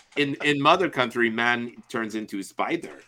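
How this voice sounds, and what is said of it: Fake Russian accent impression. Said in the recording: “my fake Russian accent ... do a Yakov Smirnoff impression”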